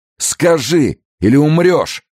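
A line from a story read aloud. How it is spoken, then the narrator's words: Wounded man's shout. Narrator (Russian): крикнул раненый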